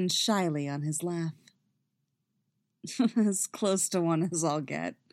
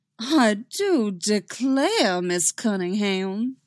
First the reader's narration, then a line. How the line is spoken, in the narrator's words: he says, affecting the goofiest southern drawl she's ever heard